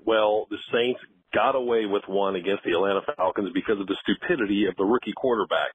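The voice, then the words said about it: Polished radio announcer voice. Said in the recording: “the radio voice”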